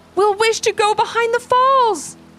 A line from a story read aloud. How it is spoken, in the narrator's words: they said together excitedly